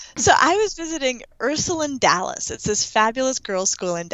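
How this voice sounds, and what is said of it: Usual voice. Nothing is said of it.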